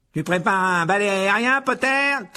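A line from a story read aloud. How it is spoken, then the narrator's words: Shouted taunt. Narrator (French): cria Malfoy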